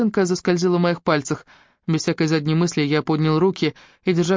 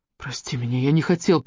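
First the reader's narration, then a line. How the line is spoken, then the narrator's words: Mumbled apology. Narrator (Russian): промямлил я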